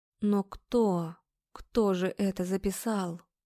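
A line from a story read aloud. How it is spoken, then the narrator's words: Quiet question. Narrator (Russian): спрашиваю тихо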